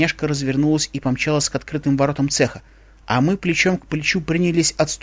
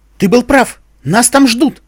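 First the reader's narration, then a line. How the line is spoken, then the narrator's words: Woman shouting. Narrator (Russian): крикнула она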